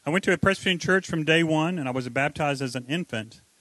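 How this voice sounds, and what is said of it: North Carolina Southern accent. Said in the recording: “Can anybody tell by my accent? ... I was born in North Carolina, where you say words like lawyer instead of however you guys say it.”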